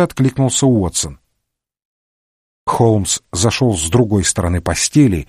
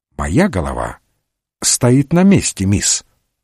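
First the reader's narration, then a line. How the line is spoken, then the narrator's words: Calm objection. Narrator (Russian): спокойно возразил Холмс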